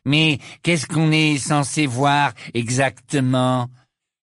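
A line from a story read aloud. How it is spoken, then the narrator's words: Mocking interruption. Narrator (French): l'interrompit Malfoy d'une voix narquoise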